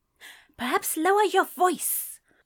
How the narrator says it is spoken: Aziraphale hissed

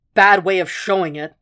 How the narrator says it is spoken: Jack snapped

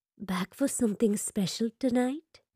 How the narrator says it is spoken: whispers in his ear

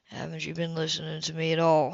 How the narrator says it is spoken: He said softly

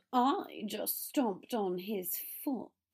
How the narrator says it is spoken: Draco drawled

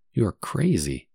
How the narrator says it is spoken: calmly remarked the general

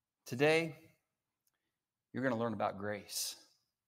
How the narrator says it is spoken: Principal quietly says

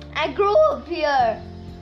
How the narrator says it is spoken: he shouted

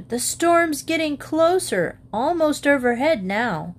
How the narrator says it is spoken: Burbank shouted

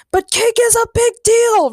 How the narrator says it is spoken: Ray shouted

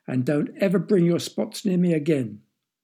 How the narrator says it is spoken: yelled the king

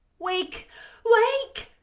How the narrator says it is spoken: I cried

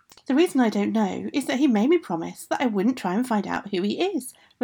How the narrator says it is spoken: Rosella answered

